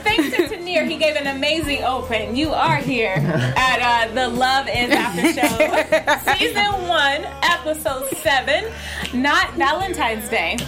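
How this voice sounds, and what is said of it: Announcer-style radio voice. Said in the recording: “Everybody hitting their radio voice tonight”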